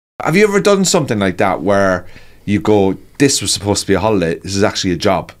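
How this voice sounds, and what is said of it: Hoarse, worn-out voice. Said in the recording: “my voice is very shot at the minute”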